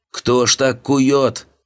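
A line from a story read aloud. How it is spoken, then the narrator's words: Siren-like roar, short man. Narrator (Russian): Корабельной сиреной взревел низенький гость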